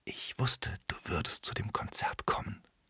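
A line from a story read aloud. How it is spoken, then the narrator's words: Whisper. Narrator (German): flüstert sie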